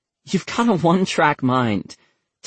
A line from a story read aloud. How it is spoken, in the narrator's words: Taylor replied with a nervous laugh